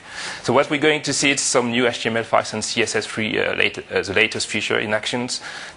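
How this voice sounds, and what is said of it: French-accented English. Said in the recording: “I am French ... our marvelous French accent”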